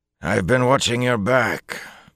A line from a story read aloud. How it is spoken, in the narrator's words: Bukama announced gruffly